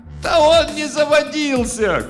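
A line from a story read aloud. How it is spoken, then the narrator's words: Young woman shouting. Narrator (Russian): крикнула с места одна из молодиц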